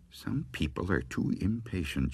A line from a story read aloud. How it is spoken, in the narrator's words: she muttered